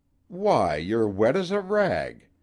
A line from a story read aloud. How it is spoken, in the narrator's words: she cried, with a sweetly unconscious assumption of proprietary interest